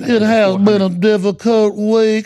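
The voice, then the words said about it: Exaggerated put-on Southern accent. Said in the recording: “Let me exaggerate my southern accent.”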